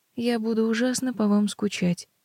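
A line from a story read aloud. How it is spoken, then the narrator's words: Sad. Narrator (Russian): грустно говорю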